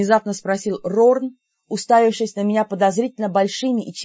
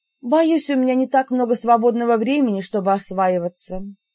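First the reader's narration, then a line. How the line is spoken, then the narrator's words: Sincere sigh. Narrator (Russian): вздохнула совсем искренне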